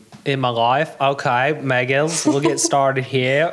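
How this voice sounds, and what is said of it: Put-on Australian accent. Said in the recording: “Drop the Australian accent real quick here.”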